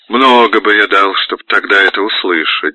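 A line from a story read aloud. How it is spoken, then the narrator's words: Laughing, then solemn. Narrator (Russian): засмеялся Григорий и сказал торжественно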